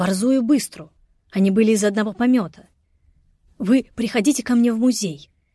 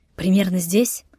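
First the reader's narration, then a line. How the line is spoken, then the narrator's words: Madman whispering in ear. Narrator (Russian): шептал мне на ухо сумасшедший Карташов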